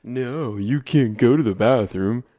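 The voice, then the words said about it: Exaggerated sarcastic delivery. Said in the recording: “very exaggerated look ... I'm being sarcastic.”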